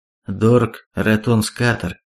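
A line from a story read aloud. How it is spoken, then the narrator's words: Gloomy reply, young man. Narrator (Russian): мрачно ответил парень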